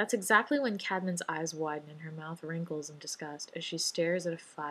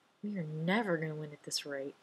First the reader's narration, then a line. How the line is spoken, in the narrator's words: Cadman mutters